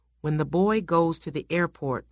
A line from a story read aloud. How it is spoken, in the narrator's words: whispered Valerian